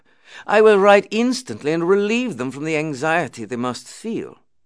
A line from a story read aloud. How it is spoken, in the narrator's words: I exclaimed